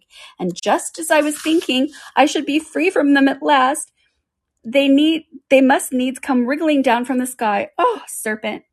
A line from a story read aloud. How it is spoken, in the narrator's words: continued the pigeon, rushing its voice to a shriek